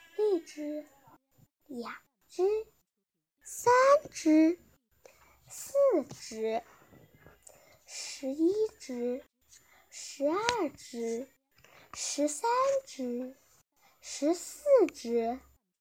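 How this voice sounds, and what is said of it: Quiet, hushed counting. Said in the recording (Chinese): “小声地数起来”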